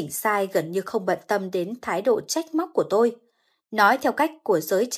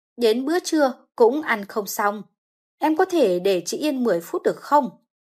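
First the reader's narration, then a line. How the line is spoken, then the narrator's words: Irritated. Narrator (Vietnamese): bực bội nói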